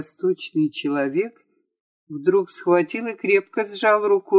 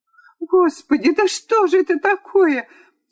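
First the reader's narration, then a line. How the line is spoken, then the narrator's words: Young lady's cry. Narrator (Russian): вскрикнула барышня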